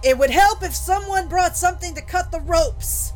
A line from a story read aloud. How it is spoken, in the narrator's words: Jack yell